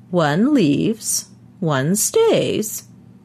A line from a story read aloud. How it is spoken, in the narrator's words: he said in his high, quavery voice